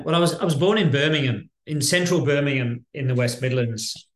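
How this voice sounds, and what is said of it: Non-Australian accent. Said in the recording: “we can slightly tell by your accent you're obviously not from there originally”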